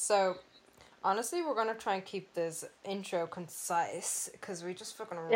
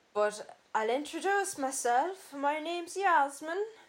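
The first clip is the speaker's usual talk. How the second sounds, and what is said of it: Badly done put-on accent. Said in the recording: “Both of those accents were terrible.”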